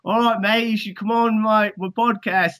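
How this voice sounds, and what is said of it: Poor put-on Australian accent. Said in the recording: “I'm trying to do an Australian accent ... that was fucking horrible”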